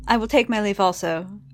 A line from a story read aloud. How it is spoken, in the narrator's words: she said